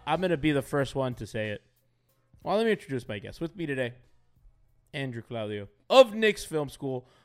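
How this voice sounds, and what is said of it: Hoarse voice. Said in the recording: “your very hoarse host”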